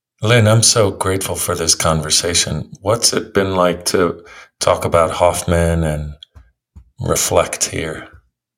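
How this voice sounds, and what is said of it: Soft, deep, soothing voice. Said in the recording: “your lovely, soft energy and deep voice is very soothing”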